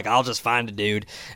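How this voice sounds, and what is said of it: Southern accent impression of Harbaugh. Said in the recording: “I gave him a Southern accent”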